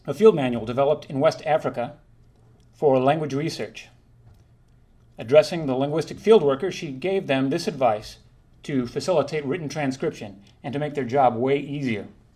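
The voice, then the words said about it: Portuguese-accented English. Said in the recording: “my Portuguese accent”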